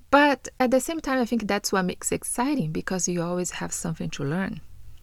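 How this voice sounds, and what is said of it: Non-native English accent. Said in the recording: “a person that has English as a second language ... maybe I will not ever speak as a native ... remove my accent”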